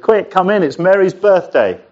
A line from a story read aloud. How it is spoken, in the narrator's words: shouted to the people up and down the street